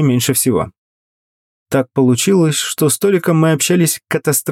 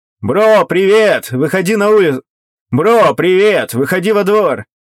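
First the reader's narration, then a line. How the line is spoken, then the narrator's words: Pleased shout. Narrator (Russian): Крикнул я довольным голосом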